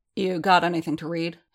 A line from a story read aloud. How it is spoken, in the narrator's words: he asked